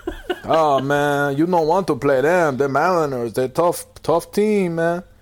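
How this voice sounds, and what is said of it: Put-on barrio-style accent impression. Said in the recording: “You sound like you're from the barrio ... You're doing some serious impersonations”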